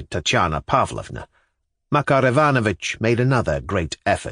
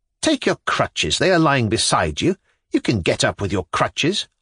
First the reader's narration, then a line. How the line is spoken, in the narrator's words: Lisa snapped out again